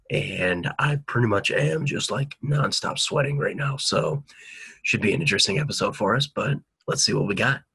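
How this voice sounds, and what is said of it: Hoarse, smooth, deep cold-affected voice. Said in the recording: “running into a little bit of a cold ... my voice is shot ... You almost got like that like smooth voice ... you sound like one of those like phone lines that people call late night phone lines”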